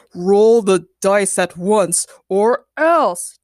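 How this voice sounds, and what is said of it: Deep booming voice. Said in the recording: “A deep voice boomed from the game.”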